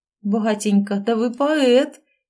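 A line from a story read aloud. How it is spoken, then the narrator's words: Bursting out laughing. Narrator (Russian): не выдержав, рассмеялась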